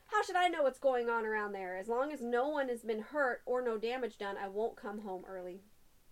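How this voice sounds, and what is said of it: Put-on New York accent, sounds Southern. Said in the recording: “I'm trying to do my New York. ... you've got the Southern coffee. Accent in my head.”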